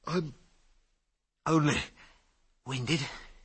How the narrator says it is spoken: he stammered

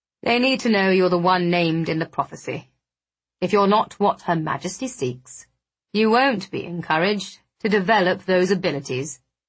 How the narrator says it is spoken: Blackwood said, his tone effortlessly cool

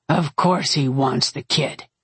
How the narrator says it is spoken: Curran growled

